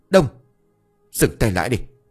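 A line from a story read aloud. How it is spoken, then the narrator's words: Sharp shout. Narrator (Vietnamese): tiếng quát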